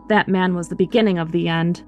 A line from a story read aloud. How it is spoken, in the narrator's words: he'd grumble about it afterwards, saying